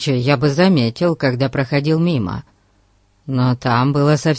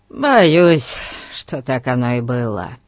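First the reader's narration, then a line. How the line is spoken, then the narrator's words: Sighing. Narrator (Russian): вздохнул Дженкс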